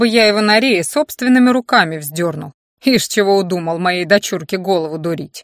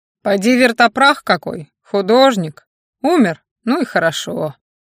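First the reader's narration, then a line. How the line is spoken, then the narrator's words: Calm. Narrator (Russian): спокойно сказал князь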